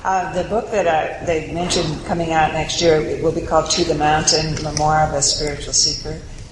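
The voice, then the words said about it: Soft, quiet speaking voice. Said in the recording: “If my voice is too soft, please let me know because I have a tendency to have a soft voice.”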